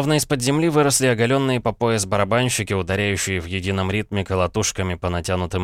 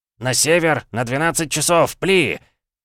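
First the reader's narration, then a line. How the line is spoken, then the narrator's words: Shouted. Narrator (Russian): крикнул он заговорщикам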